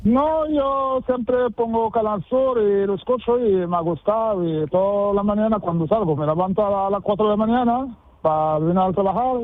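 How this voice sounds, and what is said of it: Strong Moroccan accent in Spanish. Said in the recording (Spanish): “tú parece que has llegado antes de ayer, de Marruecos ... 36 años y ese acento, poco castellano has hablado tú”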